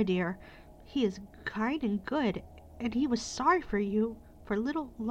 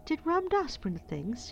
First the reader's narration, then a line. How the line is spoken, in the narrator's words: she cried out